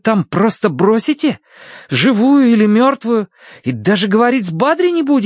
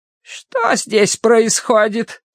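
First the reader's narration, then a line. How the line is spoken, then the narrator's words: Creaky voice. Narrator (Russian): проскрипела вошедшая в палату сестра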